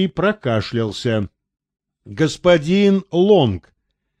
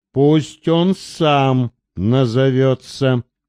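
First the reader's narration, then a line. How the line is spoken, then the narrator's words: Muffled, hollow. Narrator (Russian): глухо сказал тот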